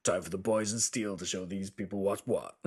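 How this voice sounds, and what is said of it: Deep announcer voice. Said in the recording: “My announcer voice? ... Nice and deep.”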